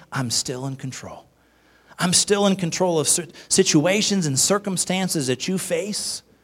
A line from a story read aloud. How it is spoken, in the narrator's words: gentle whisper, God's saying